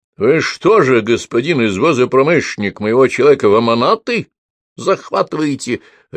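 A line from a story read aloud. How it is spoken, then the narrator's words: Loud bark. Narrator (Russian): рявкнуло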